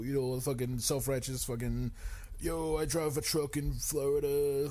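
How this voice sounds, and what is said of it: Imitates a punk band singer's voice. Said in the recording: “my Hot Water Music impression”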